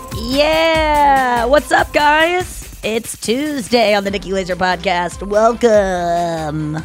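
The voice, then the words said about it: Fake radio announcer voice. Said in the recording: “I'm doing the fake radio voice.”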